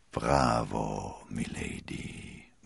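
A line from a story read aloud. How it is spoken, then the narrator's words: Murmured. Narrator (German): murmelte er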